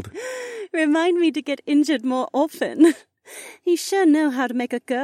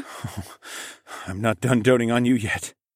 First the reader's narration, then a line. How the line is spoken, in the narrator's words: I muttered quietly against her lips